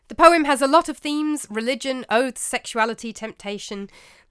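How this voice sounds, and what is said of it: English accent. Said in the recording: “as you can tell from my accent, I'm born and raised in England”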